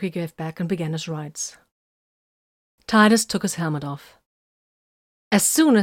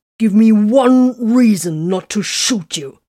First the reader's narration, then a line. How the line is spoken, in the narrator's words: Tiberius growled